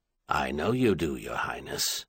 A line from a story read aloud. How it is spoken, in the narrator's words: the Earl replied just as quietly